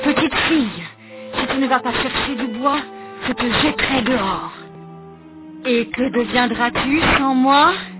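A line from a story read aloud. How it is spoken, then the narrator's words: Softened murmur. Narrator (French): la méchante femme se radoucit et murmure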